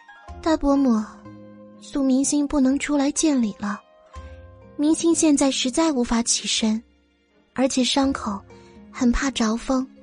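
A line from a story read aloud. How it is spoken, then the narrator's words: Weak voice. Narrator (Chinese): 阮明星 声音虚弱的说道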